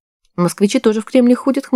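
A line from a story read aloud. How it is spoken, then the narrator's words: Scoffing grunt. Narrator (Russian): хмыкнул Женя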